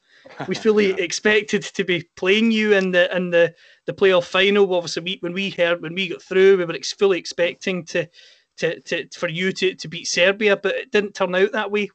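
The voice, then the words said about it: Scottish accent. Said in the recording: “As you can tell with my accent, I'm from Scotland.”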